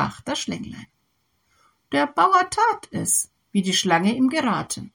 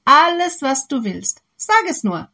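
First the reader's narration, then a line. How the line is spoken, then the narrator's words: Happy farmer calling. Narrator (German): rief der glückliche Bauer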